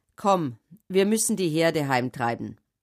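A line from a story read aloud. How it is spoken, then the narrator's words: Plain. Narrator (German): sagte Jakob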